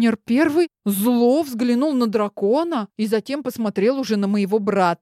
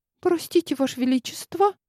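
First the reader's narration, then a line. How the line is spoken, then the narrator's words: Frightened quiet squeak. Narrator (Russian): Тихо пискнула я, испугавшись его речи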